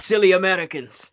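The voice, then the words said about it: Put-on Russian-sounding accent. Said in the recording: “That was more of a Russian accent. That wasn't Japanese.”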